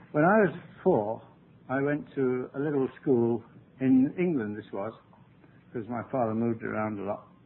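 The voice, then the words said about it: English accent. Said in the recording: “I speak with an English accent”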